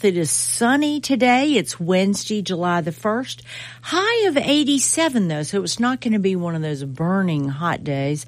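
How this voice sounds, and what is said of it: Southern American accent. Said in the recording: “with a good old Southern accent”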